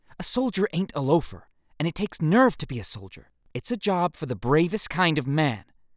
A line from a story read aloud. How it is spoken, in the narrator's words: retorted Judd Jeffers indignantly